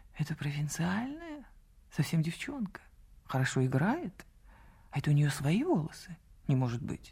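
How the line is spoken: Whispering. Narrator (Russian): до моего слуха долетел шепот

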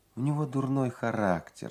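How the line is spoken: Plain. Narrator (Russian): сказала Мэй Сэдби

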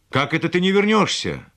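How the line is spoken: Shouted reply. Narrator (Russian): еще успел крикнуть он в ответ

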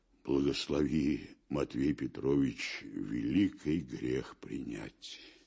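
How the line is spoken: Firm, with a heavy sigh. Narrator (Russian): Твердо вымолвил Аблаев и так вздохнул

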